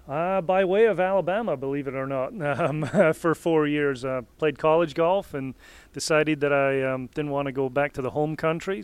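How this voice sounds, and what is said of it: Scottish accent. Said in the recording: “I detect a Scottish accent.”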